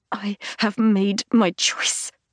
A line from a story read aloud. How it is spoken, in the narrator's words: I hiss